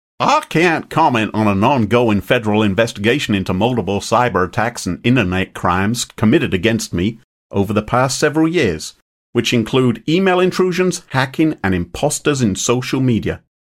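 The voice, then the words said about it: Put-on standard American accent. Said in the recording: “I don't know what he sounds like, so I'll just do a standard American accent at this point.”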